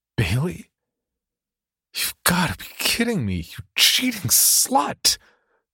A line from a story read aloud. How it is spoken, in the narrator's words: Tom whimpered, completely devastated by the sight of his girlfriend in the photo with another man